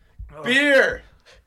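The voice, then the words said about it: Yelled exclamation. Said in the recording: “you're yelling that at ... He was yelling at his beer.”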